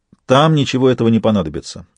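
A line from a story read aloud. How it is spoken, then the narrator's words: Businesslike tone. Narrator (Russian): сказал Сварог уже насквозь деловым тоном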